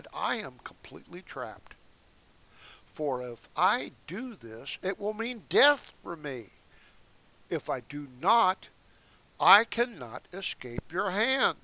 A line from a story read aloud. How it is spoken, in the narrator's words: Susanna groaned and said